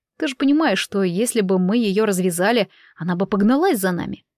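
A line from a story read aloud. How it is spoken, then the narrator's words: Calm. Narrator (Russian): спокойно заговорил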